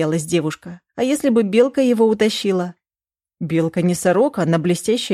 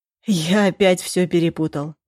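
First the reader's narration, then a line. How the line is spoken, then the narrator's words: Sighing. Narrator (Russian): Вздохнул Глеб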